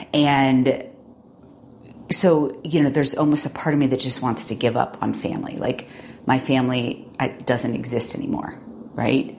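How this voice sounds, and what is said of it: Choked-up, emotional voice. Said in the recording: “you can hear it in my voice. It's actually kind of causing me to choke up a little bit.”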